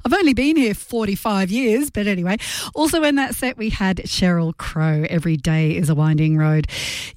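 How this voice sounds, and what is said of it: Slight English accent. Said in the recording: “I still haven't lost a little bit of my English accent.”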